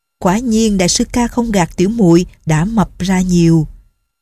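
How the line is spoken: Smiling. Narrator (Vietnamese): Nhạc Linh Sang mỉm cười nói

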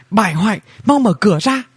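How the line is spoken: Loud shouting while knocking. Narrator (Vietnamese): Tiểu Bảo Chúa vừa gõ vừa hét lớn

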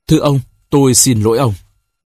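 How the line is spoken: Sighing, stammering softly. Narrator (Vietnamese): thở dài, tùm tìm cượng cười và ấp úng nói khẽ

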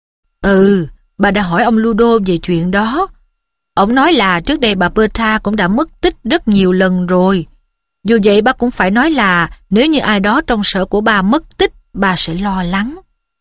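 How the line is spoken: Serious. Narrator (Vietnamese): Ông Weasley nghiêm nghị đáp

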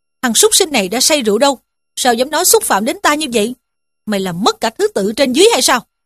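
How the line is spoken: Angry scolding shout. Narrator (Vietnamese): Dương Luân nghe nói quát mắng rằng

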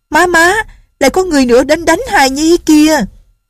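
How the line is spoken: Little girl shouting. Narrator (Vietnamese): Tiểu cô nương la lên

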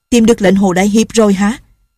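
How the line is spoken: Woman calling from afar. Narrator (Vietnamese): bên kia đường có tiếng người phụ nữ la lên

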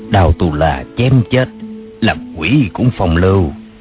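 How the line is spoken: Soft whisper. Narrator (Vietnamese): Đoàn Chính Thuần ghé vào tai nàng nói khẽ

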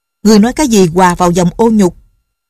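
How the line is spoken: Loud angry question. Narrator (Vietnamese): Nghi Hòa tức giận lớn tiếng hỏi

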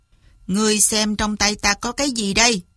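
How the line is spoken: Cold. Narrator (Vietnamese): Hoa Huy lạnh lùng nói

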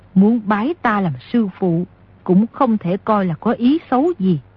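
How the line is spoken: Smiling. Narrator (Vietnamese): Nico áo trắng mỉm cười nói

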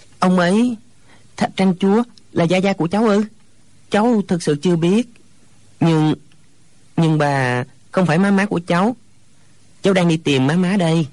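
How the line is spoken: Hesitant, stammering. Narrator (Vietnamese): Hồi lâu chàng mới ấp úng

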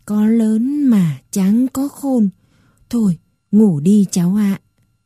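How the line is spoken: Old woman sighing. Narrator (Vietnamese): Bà tôi thở dài

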